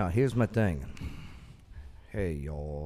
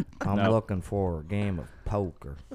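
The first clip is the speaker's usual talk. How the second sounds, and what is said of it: Poor fake Southern accent. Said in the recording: “I can fake the accent... Not very well... Are you from Minnesota?”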